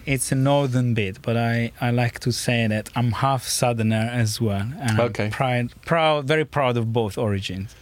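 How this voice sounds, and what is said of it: Italian accent. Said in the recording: “name and accent come from, it's Italy”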